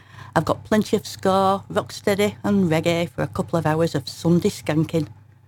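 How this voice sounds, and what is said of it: Broad northern English accent. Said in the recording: “hence my broad northern accent”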